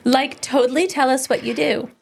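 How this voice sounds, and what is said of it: Valley Girl voice. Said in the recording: “in a Valley Girl voice”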